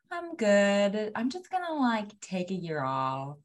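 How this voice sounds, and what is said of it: Judgmental mocking imitation of carefree people. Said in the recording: “the way I'm imitating those people, I'm like obviously putting a judgment on them.”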